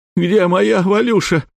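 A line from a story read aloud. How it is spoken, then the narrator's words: Shrieking then sobbing. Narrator (Russian): взвизгнул парень и зарыдал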